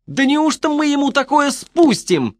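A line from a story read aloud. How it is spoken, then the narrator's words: Shrill shriek. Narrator (Russian): завизжал он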